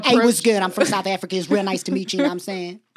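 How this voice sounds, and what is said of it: Put-on South African twang accent. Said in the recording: “You have an accent. You have a twang ... when you talk like Fat Dick, you do.”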